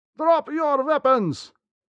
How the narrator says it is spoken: Through the ringing in our ears came a shout

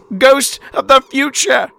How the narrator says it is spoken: the old man exclaimed

